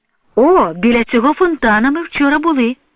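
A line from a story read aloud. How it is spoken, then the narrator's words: Joyful recognition. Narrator (Ukrainian): радісно впізнає Ганна Адамівна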